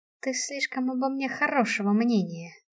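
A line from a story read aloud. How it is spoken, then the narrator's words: Displeased grumble. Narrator (Russian): пробурчала я недовольно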